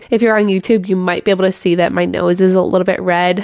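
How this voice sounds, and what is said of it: Sick, slightly odd-sounding voice. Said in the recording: “I am sick again. So if my voice sounds a little bit weird, that would be why... Hopefully I don't sound too out of breath.”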